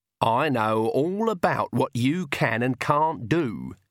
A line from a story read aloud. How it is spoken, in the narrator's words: she said